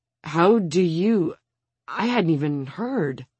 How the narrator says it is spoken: The Spanish homeowning politician stammers

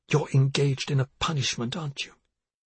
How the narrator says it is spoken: Yasmina said, so close to a whisper that she wasn't sure her daughter could hear her

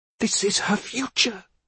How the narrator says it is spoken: Yasmina hissed

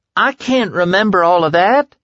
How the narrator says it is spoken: Tom wailed

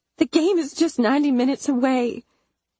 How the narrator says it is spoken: I begged

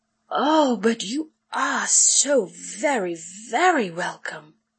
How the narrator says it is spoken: Lorelei purred

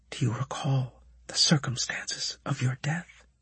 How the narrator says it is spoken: she asked quietly

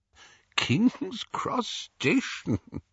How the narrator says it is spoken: Dumbledore was chuckling immoderately

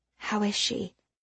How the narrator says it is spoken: Cassie whispered

